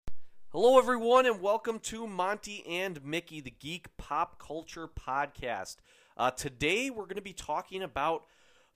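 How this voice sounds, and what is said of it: Deeper, congested voice from a cold. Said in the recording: “I do actually have a cold, so if my voice is a little deeper today, it's not because I'm trying to, you know, use a voice changer”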